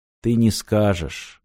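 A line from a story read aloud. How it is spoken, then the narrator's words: Sad. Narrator (Russian): грустно сказал японец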